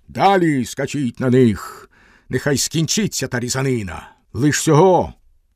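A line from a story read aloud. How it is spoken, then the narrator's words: Shouted. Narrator (Ukrainian): він крикнув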